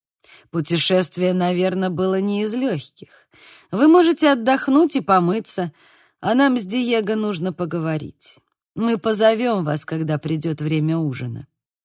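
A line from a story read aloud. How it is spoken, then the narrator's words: Plain. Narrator (Russian): сказал Падре Мендоса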